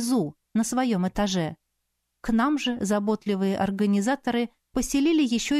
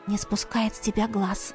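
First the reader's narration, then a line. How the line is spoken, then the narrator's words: Whisper. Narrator (Russian): шепнула ей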